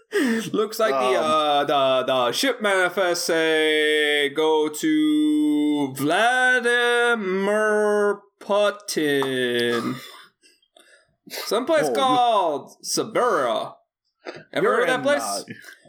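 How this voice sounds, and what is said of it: Put-on Cajun accent. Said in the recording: “I am a white man with a Cajun accent. ... You're kind of doing a wild and crazy guy.”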